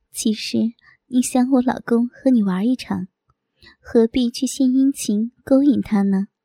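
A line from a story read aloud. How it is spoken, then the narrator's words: Smiling. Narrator (Chinese): 我微笑着说道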